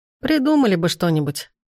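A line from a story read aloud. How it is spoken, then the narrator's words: Laughing. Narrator (Russian): рассмеялся мой помощник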